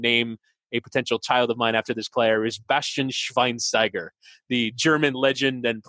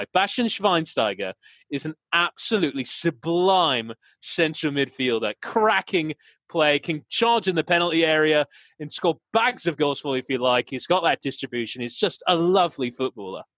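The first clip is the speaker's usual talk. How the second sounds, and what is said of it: Put-on English accent. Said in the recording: “talking football in an English accent”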